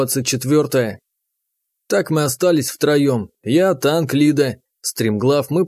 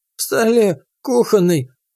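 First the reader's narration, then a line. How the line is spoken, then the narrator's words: Old man's faint rustle. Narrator (Russian): обмирающим голосом прошелестел старец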